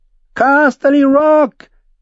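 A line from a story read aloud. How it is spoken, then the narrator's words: Shrill boyish shout. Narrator (German): rief er mit seiner schrillen Knabenstimme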